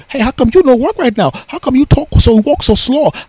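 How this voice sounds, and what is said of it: Bad mocking imitation of foreign accent. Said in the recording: “really bad impression of her accent”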